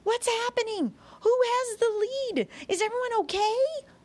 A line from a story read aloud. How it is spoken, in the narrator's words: he yelled